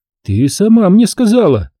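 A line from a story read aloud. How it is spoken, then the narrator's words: Exclaimed. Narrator (Russian): воскликнула Талия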